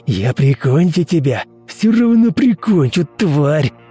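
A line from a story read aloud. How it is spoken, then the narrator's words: Hissing, menacing. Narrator (Russian): шипел Константин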